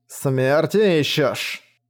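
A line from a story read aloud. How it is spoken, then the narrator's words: Menacing hiss. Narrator (Russian): угрожающе прошипел клон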